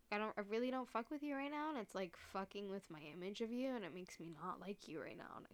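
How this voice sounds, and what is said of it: Choked-up, tearful voice. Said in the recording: “I don't know why I'm getting choked up. ... listen to me cry”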